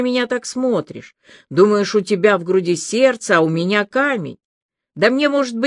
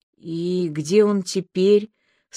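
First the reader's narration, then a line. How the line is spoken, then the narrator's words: Dazed breathless murmur. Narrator (Russian): сама, не понимая, о чем спрашивает, выдохнула она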